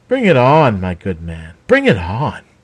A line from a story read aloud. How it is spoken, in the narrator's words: Raven sneered